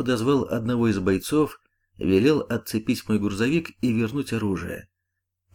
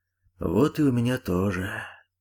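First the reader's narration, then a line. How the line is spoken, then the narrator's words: Sighing. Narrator (Russian): вздохнул полковник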